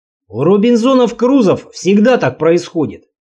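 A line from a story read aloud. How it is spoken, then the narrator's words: Grumbling mutter. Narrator (Russian): пробурчал Сомов в сторону камина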